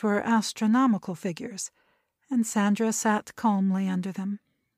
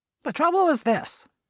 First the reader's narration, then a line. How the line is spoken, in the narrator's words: her grandfather went on sharply